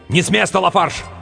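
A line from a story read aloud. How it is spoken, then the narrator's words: Group shouting. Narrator (Russian): Они кричали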